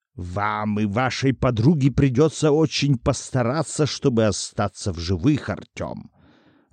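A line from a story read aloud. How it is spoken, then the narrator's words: Angry hiss. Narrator (Russian): Зло прошипел он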